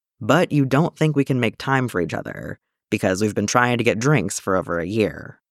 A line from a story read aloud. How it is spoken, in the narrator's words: Din filled in, his voice flat